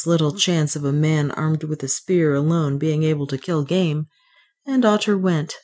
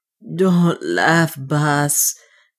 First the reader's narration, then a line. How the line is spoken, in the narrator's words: gasped the dwarf